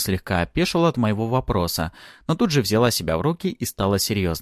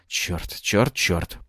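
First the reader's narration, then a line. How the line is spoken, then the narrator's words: Muttering. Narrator (Russian): пробормотал я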